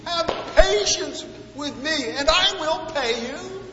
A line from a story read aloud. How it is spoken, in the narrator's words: his fellow employee ... pleaded